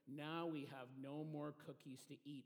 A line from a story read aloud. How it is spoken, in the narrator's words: said Toad sadly